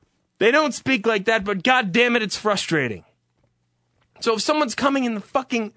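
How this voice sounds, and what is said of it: Usual voice. Nothing is said of it.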